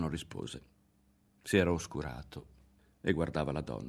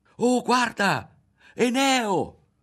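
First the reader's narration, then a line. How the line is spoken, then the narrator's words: Sudden shout. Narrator (Italian): gridò tutto a un tratto Berto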